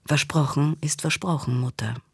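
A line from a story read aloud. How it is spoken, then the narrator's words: Plain. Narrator (German): sagte sie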